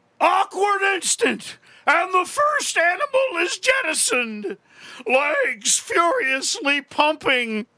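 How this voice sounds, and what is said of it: Intoxicated rock singer impression. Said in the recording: “I do a perfect imitation of Jim Morrison. ... After he's had 6 bottles of scotch, 15 joints, a quarter ounce of heroin, ... and a tab ... of acid. ... Cocaine ... impersonation of Jim Morrison”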